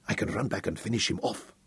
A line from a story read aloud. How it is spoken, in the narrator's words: he growled